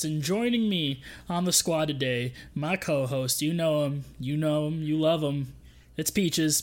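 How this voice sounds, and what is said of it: Sudden put-on accent. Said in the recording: “that accent you just suddenly had”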